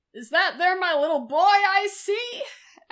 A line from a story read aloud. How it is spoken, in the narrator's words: One yells out